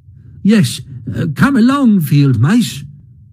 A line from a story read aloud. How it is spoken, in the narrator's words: cried the Mole eagerly